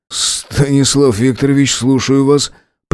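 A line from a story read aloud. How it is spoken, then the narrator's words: Strangled voice. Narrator (Russian): придушенным голосом ответил начальник охраны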